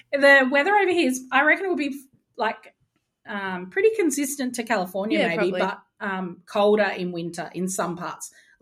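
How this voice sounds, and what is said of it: Australian accent. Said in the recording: “Why is your accent so darn sexy? ... an Australian man ... Aussie men are good.”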